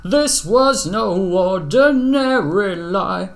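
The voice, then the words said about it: Imitates a singer's voice. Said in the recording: “my Bob Mould impression ... Very nice.”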